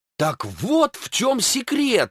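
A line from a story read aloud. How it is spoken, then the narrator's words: Exclaimed. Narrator (Russian): воскликнул агент Купер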